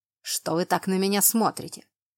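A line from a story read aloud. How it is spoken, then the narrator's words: Irritated question. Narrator (Russian): Раздраженно поинтересовался герцог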